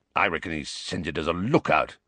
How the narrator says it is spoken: growled Moody

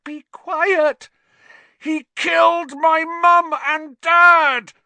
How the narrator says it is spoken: Harry roared

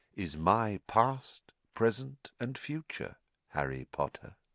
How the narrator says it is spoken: said Riddle softly

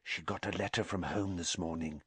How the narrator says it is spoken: whispered

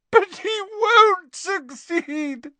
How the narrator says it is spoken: sobbed Narcissa

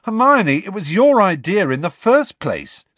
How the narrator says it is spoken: said Ron indignantly

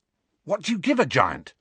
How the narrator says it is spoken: asked Ron eagerly

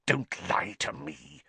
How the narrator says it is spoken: Snape hissed

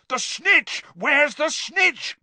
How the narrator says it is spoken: bellowed Charlie along the row

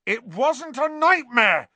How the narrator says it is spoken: Ron yelled

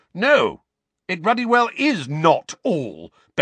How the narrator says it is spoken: bellowed Uncle Vernon

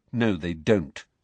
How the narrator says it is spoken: said Harry, his jaw set

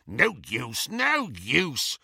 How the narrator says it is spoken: snarled the goblin

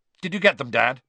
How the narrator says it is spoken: said Bill, sharply

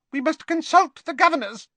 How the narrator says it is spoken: said Professor Flitwick in his squeaky little voice

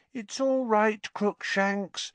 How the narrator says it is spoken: Hermione cooed through the wickerwork

